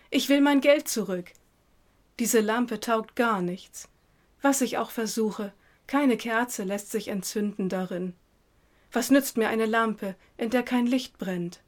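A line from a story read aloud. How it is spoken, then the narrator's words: Distant call. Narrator (German): rief er schon von Weitem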